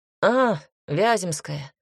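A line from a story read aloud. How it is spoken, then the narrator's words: Grumbling mutter. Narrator (Russian): буркнул Станислав Иванович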